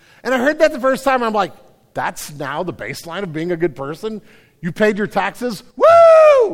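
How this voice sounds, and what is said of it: Usual voice. Nothing is said of it.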